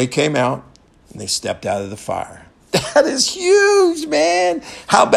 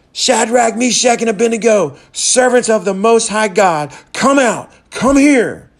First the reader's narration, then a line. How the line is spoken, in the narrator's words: Nebuchadnezzar shouted